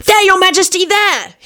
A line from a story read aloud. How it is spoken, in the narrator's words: he shouted